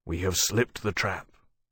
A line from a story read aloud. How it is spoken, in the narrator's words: he said quietly